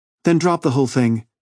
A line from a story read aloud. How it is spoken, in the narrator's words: she pleaded